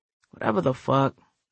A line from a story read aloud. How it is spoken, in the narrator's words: Shadow said softly, so that Elise wouldn't hear him cursing